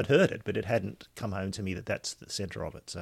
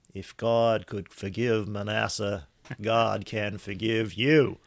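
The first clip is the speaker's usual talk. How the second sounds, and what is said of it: Poor imitation of another person's accent. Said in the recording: “that's a dreadful attempt at the accent”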